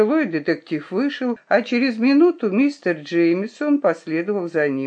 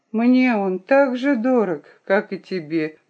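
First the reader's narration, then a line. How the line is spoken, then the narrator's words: Sad remark. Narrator (Russian): грустно заметила она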